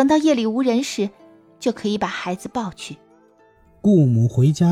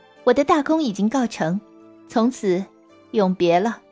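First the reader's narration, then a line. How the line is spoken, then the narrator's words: Smiling, cheerful. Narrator (Chinese): 他 满脸笑容地说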